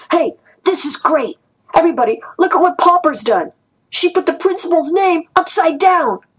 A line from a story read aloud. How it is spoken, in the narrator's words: Du Hai was shouting